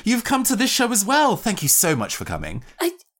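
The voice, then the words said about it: Put-on theatrical character accent. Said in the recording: “Having the voice accent kind of kicked back in again.”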